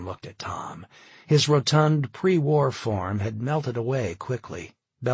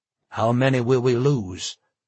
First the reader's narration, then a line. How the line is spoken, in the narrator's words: Charlie asked